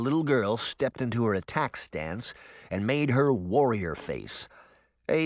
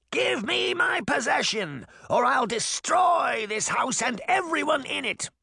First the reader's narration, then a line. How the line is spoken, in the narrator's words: Baba Yaga screamed